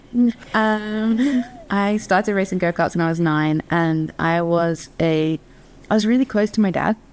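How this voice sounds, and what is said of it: Mid-Atlantic English-American twang. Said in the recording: “back in England. Although I've been over here for the majority of my adult life, so that explains the mid-Atlantic twang. ... Contrary to popular belief, I'm not from Louisiana.”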